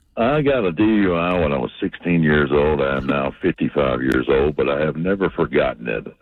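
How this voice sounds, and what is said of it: Southern American accent. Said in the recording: “I'm originally from North Carolina, so I don't have the Jersey accent... we love the Southern accent”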